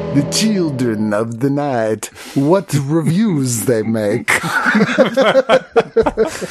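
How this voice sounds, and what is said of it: Put-on old vampire movie accent. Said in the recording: “it doesn't matter what accent you're trying to do, it always turns into Bela Lugosi at some point ... the one accent I can do is Bela Lugosi”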